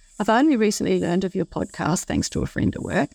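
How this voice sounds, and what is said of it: Australian accent. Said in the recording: “I like the sound of ... voice very much. I like her accent.”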